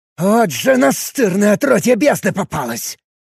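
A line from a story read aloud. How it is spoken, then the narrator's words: Angry hiss. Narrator (Russian): Зло прошипел Ацев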